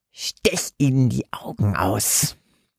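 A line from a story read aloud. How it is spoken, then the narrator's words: Disembodied hissing voice. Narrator (German): fauchte es aus Bernhards Hinterkopf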